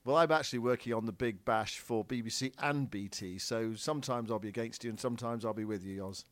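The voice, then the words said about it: Bristolian accent, twangy. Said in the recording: “your, you know, Bristolian twang.”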